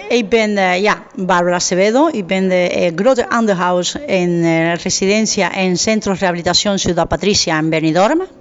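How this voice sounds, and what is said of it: Strong Spanish accent speaking Dutch. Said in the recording (Dutch): “nou horen we een Spaans accent... ik heb een grote accent natuurlijk”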